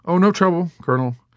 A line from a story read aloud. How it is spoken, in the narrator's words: said Major Danby, trying nervously to cover up